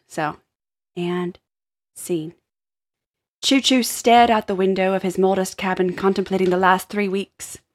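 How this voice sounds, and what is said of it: Attempted UK accent while reading. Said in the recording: “I was gonna try and read this with an accent, so please apologies. Um, I'm going to try very hard. Uh, I envisioned uh, a UK accent.”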